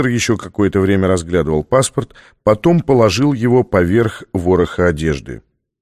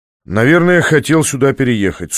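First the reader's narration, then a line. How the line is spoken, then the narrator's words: Dry. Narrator (Russian): сухо предположил Беккер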